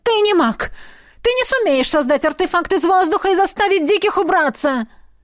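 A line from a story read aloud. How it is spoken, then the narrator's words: Sudden shriek. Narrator (Russian): Она вдруг взвизгнула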